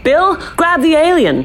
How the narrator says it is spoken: I shouted

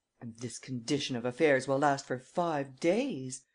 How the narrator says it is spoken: exclaimed Miss Nelly Underdown

